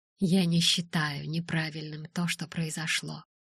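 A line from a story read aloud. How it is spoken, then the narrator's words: Soft speech. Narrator (Russian): произнес мягко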